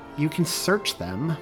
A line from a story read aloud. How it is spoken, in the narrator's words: Megan suggested, her voice pleading